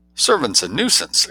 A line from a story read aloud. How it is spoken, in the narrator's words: exclaimed Jane, bounding into the topic with the exuberant plunge